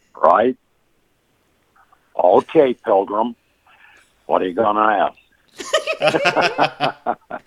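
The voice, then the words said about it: John Wayne impression. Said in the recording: “will you do a John Wayne impression?”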